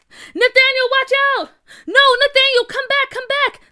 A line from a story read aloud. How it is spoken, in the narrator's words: the kid screamed